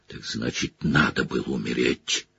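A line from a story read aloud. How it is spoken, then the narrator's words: Growl. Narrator (Russian): прорычал Блэк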